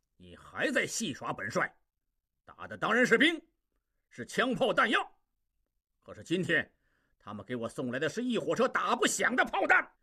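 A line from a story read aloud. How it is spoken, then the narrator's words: Angry. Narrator (Chinese): 印昌又被激怒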